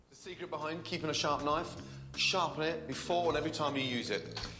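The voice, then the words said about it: Scottish accent. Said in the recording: “that Scottish accent is just very, very notable”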